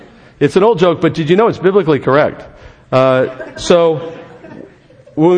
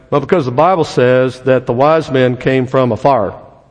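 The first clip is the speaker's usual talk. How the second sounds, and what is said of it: Put-on Texas accent. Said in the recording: “It's my best Texas accent.”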